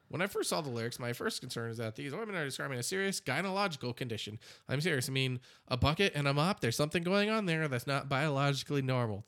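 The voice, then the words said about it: Imitates another person's voice. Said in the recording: “my Ben Shapiro impersonation”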